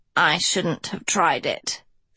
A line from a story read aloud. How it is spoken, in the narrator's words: she wheezed